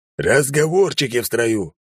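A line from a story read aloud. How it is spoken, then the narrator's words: Barked command. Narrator (Russian): рявкнул Кнут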